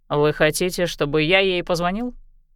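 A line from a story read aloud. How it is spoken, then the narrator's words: Snorting. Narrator (Russian): Мэддокс хмыкнул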